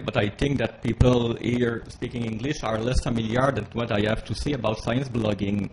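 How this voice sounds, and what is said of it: Heavy accent speaking English. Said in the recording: “despite my huge accent, as you can hear”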